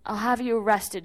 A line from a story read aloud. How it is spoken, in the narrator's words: she stammered